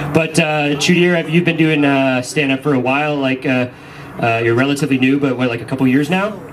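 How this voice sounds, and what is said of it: Usual voice. Nothing is said of it.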